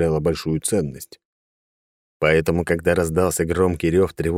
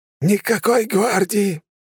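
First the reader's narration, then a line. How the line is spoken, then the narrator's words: Hoarse but clear. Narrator (Russian): Все еще хрипло, но достаточно четко произнес он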